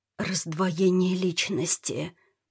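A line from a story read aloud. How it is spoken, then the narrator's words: Fearful whisper. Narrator (Russian): прошептала Ната, словно боясь, что ее кто-нибудь услышит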